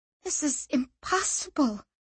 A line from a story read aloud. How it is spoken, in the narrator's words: she muttered